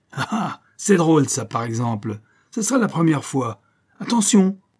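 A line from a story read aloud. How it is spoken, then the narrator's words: Shouted. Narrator (French): cria-t-il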